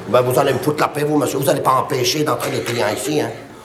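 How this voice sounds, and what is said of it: Marseille accent. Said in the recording (French): “à votre accent, on sent que vous n'êtes pas de Paris ... je suis de Marseille”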